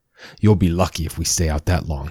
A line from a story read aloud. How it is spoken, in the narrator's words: he said, with a cruel chuckle